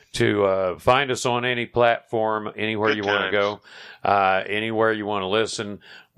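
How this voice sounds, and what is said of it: Tired, slightly froggy voice. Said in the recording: “I'm getting a little tired and my voice is getting a little bit froggy.”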